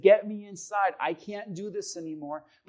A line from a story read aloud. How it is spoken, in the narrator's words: She begged the man with the shotgun and said